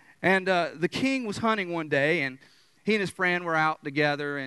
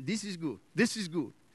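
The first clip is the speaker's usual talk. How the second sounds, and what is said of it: Put-on strong African accent. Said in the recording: “He had that strong, you know, African accent.”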